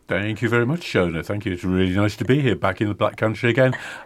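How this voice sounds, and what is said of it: Mancunian English accent. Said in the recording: “as your listeners will hear from my voice, I'm nothing to do with the Black Country ... But I'm actually from Manchester.”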